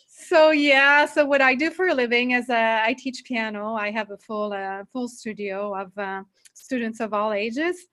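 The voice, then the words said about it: French Canadian accent. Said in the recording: “I come from Canada, Montreal. So I'm basically French speaking most of the time. So if you find my accent funny, this is why... French accents are super sexy”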